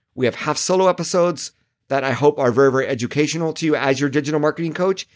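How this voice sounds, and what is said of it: Strained, hoarse voice. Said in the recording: “I'm sort of losing my voice as well.”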